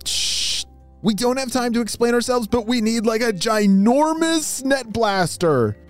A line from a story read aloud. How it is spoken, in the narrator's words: shouted Atlas into his walkie-talkie